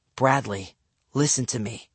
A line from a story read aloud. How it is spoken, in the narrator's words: I whispered